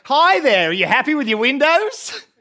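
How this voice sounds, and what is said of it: Put-on accent. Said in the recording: “put on an accent”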